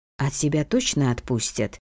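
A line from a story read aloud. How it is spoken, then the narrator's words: Unsure clarifying question. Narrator (Russian): уточнила Ула, чувствуя себя немного неуверенно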